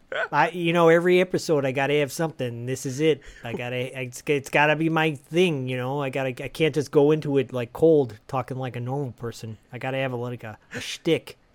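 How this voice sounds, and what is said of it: Put-on Chicago accent. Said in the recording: “He can't break out of the Chicago accent. So I think he's just got to keep it going.”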